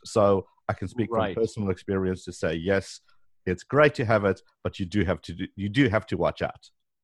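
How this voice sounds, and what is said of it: Speaker with a noticeable accent. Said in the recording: “they didn't understand my accent ... especially if you do have an accent”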